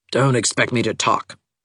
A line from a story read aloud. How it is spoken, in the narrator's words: she had warned Anne curtly